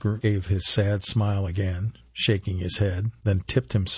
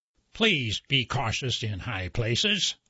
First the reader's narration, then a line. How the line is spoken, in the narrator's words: they said in their scratchy, synthesized voice